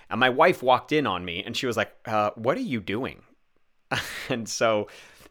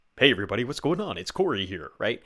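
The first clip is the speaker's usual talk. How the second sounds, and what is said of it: Fake, exaggerated announcer voice. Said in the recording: “this like weird announcer voice ... being a bit fake”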